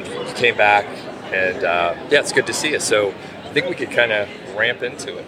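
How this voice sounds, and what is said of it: Rough, hoarse voice. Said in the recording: “that's why my voice sounds the way it does. It's just rough.”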